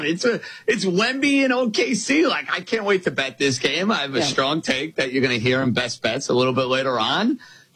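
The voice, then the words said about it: New York accent. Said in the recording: “I sound very much like a New Yorker. I don't think you're going to mistake my accent for being from the Midwest or being out in California”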